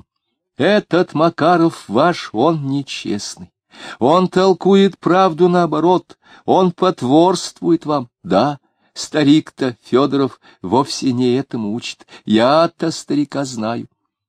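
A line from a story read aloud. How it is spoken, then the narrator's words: Loud, jubilant. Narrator (Russian): Диомидов говорил снова, громко и ликующим тоном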